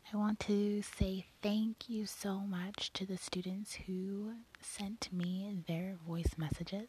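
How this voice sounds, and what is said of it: Congested voice from a cold. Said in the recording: “my voice is terrible right now. I have a cold.”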